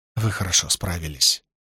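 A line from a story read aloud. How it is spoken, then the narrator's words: Whisper. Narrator (Russian): прошептала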